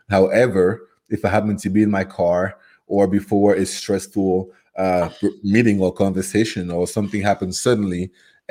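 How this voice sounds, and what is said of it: French-accented English, Cameroonian. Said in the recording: “where did you get that beautiful accent? ... So my accent is from Cameroon, which is geographically in West Africa. So my first language is French ... the accent you hear is a whole lot of education in French until I was about 22, and then living in the U.S.”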